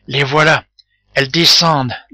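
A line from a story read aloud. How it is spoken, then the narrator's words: Low voice. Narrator (French): dit Tortillard à voix basse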